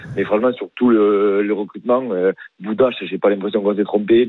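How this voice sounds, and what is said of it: Southern French accent. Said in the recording (French): “t'as pas vraiment un accent du Rhône ... j'ai l'accent du Sud”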